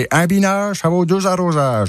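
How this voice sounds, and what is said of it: Put-on Berrichon rural French accent. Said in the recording (French): “Il avait cet accent-là? ... c'est berrichon.”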